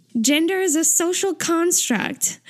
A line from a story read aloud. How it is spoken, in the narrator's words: Taeyong shouts